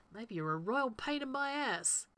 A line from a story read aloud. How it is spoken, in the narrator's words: Rodney mutters